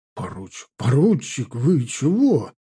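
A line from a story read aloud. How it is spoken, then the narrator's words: Frightened mumble. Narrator (Russian): промямлил побледневший капитан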